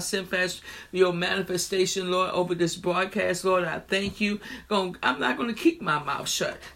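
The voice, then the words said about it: Hoarse voice. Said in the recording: “I do apologize that I'm a little hoarse right now. A voice”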